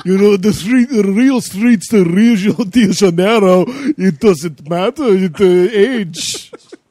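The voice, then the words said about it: Vague put-on accent, Count-like voice. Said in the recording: “I don't even know what accent I'm doing. ... Kind of sounds like the Count from Sesame Street.”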